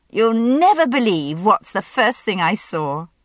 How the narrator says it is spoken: she said, laughing as she saw them

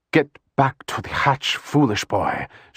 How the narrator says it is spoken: Shiana hissed at Paul, using just enough voice to make his legs respond

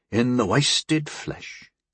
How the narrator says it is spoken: Harm said wearily

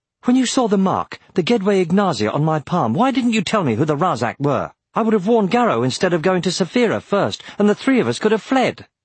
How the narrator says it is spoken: Unsettled, Aragorn asked hotly

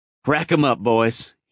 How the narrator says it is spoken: he laughed

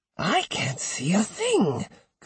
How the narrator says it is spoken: complained the old woman in what she thought was a whisper

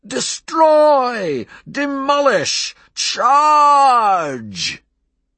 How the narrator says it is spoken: taking a big breath, he screamed

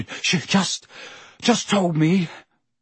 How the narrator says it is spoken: Harry panted

